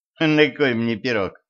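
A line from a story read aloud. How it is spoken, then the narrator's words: Sly boy's snort. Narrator (Russian): хмыкнул ушлый мальчишка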